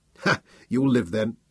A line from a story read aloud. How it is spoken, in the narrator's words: chuckled